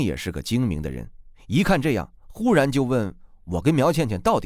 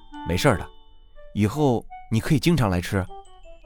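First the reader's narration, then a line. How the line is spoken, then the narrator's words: Soft sighing. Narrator (Chinese): 我微微感叹的说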